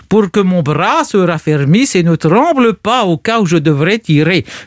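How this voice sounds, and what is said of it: Put-on Russian-style accent in French. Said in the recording (French): “Je me permets de prendre cet accent parce que Pouchkine parlait parfaitement le français”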